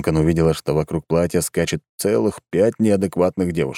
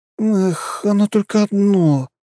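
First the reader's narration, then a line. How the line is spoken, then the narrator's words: Sighing blonde woman. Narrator (Russian): вздохнула блондинка по имени Андромеда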